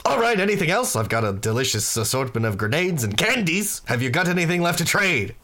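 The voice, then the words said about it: Boisterous character voice. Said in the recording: “I cannot do a consistent accent for this guy. ... I don't know if it's an accent. It's just very boisterous.”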